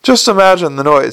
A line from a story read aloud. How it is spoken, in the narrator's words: said Adora Bell cheerfully